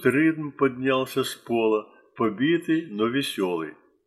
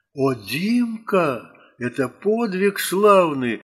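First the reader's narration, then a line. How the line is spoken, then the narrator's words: Exclamation. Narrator (Russian): воскликнул Ритм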